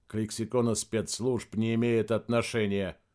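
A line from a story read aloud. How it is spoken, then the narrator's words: Dry, official. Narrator (Russian): сухо сказал начальник управления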